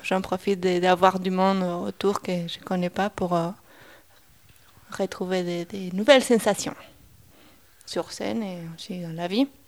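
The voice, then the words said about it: Argentine accent in French. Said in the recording (French): “J'ai un peu l'accent ... c'est un accent de quel pays? ... Argentine”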